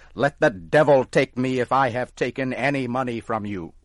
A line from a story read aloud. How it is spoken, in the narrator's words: Tom got angry and started to shout